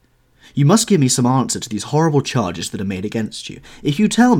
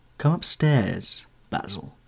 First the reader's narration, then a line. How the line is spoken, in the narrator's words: he said quietly